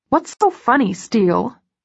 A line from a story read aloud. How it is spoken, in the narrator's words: she snaps, but not seriously